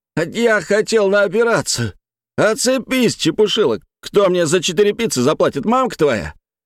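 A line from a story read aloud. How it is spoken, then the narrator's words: Swearing shout. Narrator (Russian): Эдик заорал матом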